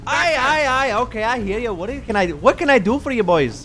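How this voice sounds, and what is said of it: Put-on Irish accent. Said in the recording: “I don't trust the Irish. ... I'm not sure actually what the accent is”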